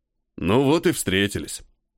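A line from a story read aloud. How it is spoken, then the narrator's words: Deep-voiced man. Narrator (Russian): пробасил мужик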